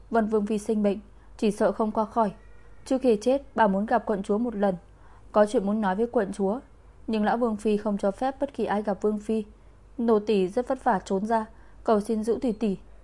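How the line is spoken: Sobbing. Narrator (Vietnamese): Tiểu nha hoàn khóc nức nở

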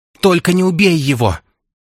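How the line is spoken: Shouting. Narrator (Russian): кричала

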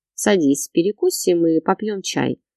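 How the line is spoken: Calm offer. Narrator (Russian): предложила Карина спокойно поделилась

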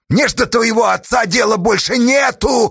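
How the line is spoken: Desperate wail. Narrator (Russian): отчаянно завопил Асташа

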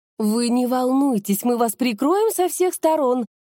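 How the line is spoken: Joyful chirping. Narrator (Russian): радостно щебетала Наталья

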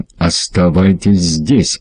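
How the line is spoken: Growl. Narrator (Russian): прорычал

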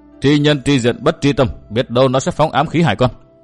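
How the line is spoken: Stern. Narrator (Vietnamese): Tiêu phu nhân nghiêm giọng

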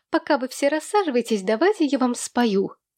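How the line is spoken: Cheerful squeal. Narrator (Russian): Умница Бонни, видя всеобщее недовольство и недоумение, веселым тоном проверещала

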